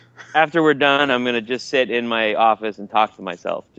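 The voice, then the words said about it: Sick, husky low voice. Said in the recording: “my sexy voice because I'm sick. So it may actually not be a sexy voice”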